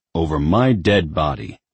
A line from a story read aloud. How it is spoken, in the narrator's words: growled Lucifer